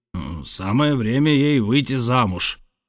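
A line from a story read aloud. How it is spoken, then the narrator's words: Grumbling. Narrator (Russian): проворчал капитан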